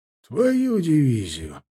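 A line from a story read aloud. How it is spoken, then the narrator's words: Joyful old man exclaiming. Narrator (Russian): воскликнул обрадованно дед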